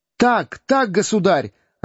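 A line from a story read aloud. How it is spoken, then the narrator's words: Joyful exclamation. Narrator (Russian): радостно воскликнул Том Канти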